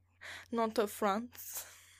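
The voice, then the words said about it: Attempted French accent, sounds off. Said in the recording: “I'm trying to say France with a French accent. I don't think that's... It sounds weird ... Trying so hard”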